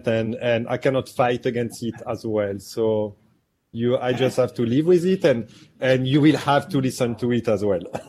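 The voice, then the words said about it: French accent from Marseille. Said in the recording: “You have one of the best Naples accents I've ever heard... where'd you pick up that awesome accent?... So I'm actually from Marseille, France. So I cannot get any credit on that accent”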